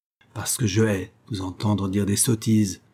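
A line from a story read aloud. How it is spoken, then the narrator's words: Cold, restrained emotion. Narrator (French): répondit Olivia, encore animée par la première explosion de son émotion, mais se dominant assez pour parler froidement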